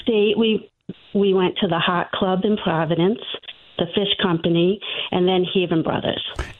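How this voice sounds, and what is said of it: Rhode Island accent. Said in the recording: “Well, I'm from Rhode Island. ... You have an accent. ... We can tell. ... No, you have a great radio voice. ... Has character.”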